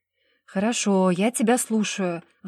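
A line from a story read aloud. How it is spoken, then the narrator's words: Sighing, resigned. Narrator (Russian): вздохнула Даша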